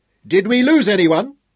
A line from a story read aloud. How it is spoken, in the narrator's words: Hal shouted